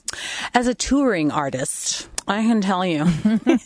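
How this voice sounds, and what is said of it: Put-on uppity, posh voice. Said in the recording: “excuse me while I put on my sedity voice,”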